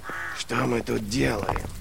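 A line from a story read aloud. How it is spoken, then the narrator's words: Hiss. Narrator (Russian): прошипел Глокта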